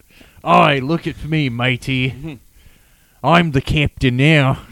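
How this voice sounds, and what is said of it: Pirate voice, Gordon Ramsay impression. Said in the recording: “her pirate impression got a lot better ... Sound like, yeah, Crocodile Dundee ... his Gordon Ramsay impression”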